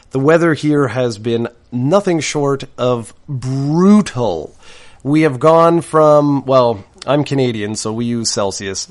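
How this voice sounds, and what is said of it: Voice sounds off from a cold. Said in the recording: “my voice sounds a little bit off, and that's because I've had a cold for the last couple of days”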